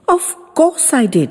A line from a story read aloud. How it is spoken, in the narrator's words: he said hotly